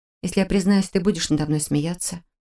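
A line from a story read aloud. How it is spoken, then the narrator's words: Embarrassed mumble. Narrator (Russian): Смутившись, пробормотала я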